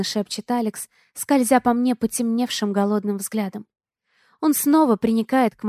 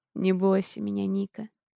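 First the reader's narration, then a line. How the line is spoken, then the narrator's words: Hoarse plea. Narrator (Russian): хрипло просит Алекс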